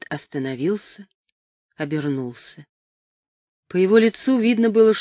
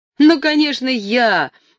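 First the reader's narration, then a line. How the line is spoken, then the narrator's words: Cheerful loud shout. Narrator (Russian): весело прокричал Джо, с шумной приветливостью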